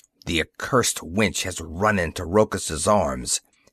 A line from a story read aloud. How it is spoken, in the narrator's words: hissed, her face distorted with hate